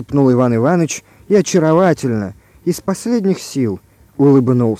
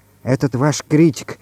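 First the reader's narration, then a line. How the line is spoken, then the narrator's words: Whispered question. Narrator (Russian): шепотом спросила Галя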